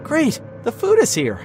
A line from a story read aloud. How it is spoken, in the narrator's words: Sarah exclaimed